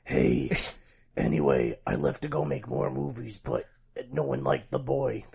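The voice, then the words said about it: Gruff imitation of another person's voice. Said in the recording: “my impression of Maggie. Just a real gruff Maggie.”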